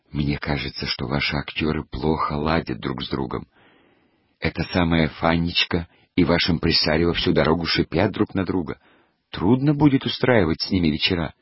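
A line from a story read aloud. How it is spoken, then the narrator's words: Quiet. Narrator (Russian): Я сказала тихонько Аверченке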